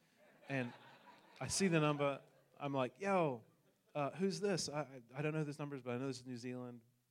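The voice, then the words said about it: New Zealand accent. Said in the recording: “I come from New Zealand, hence the accent.”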